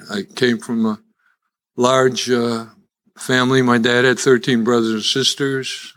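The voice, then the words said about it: Chicago accent. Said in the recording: “as you can tell by my accent, I'm still a Chicagoan.”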